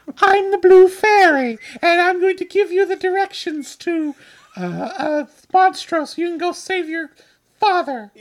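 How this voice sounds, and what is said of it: Whimsical fairy character voice. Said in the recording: “doing my unicorn voice”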